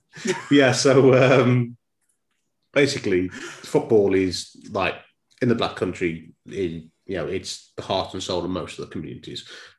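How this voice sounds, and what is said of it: Black Country (Dudley) accent. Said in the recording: “if the accent can't give it away, I'm from Dudley ... I thought that was an Irish accent.”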